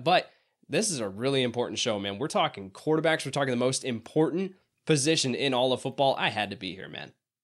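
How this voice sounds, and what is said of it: Voice sounds congested from cold. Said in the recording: “get the cold from the daycare. Still a little bit under the weather. You can hear it in my voice.”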